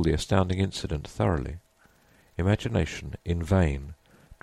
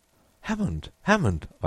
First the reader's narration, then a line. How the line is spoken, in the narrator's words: I cried